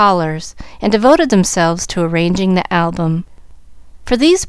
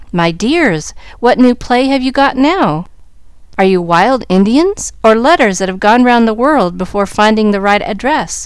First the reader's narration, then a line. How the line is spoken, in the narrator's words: she asked, laughing at the ridiculous sight